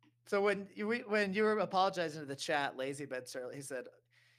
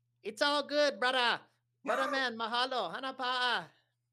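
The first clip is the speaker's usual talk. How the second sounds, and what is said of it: Put-on accent. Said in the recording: “I want to do my best accent.”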